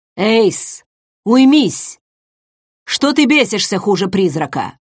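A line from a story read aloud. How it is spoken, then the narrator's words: Growl. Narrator (Russian): Рыкнул Рестат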